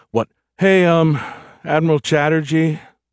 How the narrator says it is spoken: Happy sighed into his earpiece

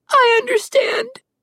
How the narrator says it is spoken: she said through her sobs

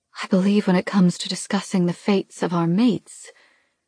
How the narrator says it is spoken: Mara says smoothly

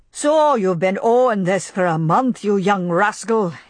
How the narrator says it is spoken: he would shout

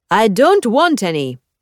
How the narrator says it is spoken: she shouts from within

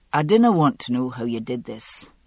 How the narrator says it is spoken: he said with a sigh

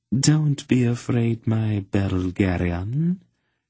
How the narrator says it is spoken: she purred at him

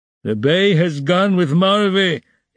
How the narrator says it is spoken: he shouted from the cart

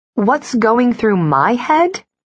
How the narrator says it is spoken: I snapped

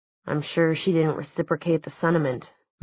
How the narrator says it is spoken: muttered Luke

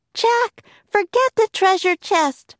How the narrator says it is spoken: cried Annie

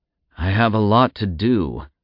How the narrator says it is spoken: Zack sighed

